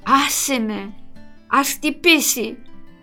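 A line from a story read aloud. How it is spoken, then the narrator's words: Groggy near-growl. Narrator (Greek): μούγκρισε σχεδόν πάλι η Αλέκα με κλειστά μάτια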